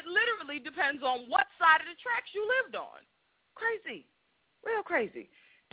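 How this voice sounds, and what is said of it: Black Boston accent. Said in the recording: “I get it from y'all for sounding like Boston... sounding like white Boston... there's a black Boston accent”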